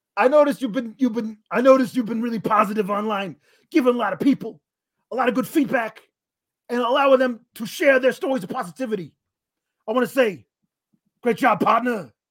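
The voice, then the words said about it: Imitates another person's voice. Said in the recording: “my entire Eddie Kingston impression is based partner”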